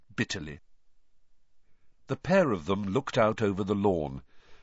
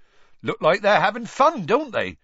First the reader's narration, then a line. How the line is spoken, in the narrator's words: Hagrid said happily